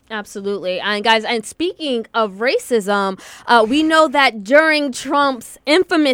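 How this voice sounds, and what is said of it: Usual voice. Nothing is said of it.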